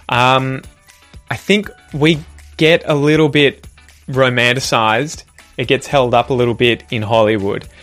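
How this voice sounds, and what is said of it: Australian accent. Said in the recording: “I don't really find Australian accents sexy, probably because I have one”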